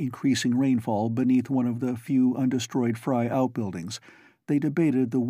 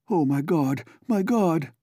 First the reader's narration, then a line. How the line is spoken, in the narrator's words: the voice choked out